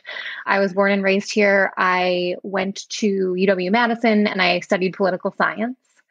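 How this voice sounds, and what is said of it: Wisconsin accent. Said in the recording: “I am from Wisconsin, which you can probably tell from my accent.”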